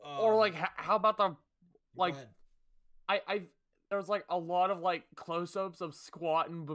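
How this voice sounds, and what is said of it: Usual voice. Nothing is said of it.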